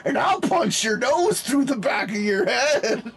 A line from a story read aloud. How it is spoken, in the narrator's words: screamed